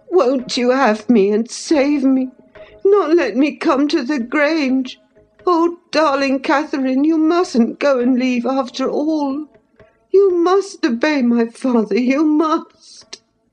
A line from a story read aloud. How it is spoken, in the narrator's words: He ... feeble ... sobbing